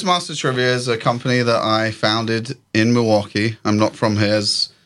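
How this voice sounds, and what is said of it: Non-local accent. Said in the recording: “the way I speak as well. So people tell me I have an accent.”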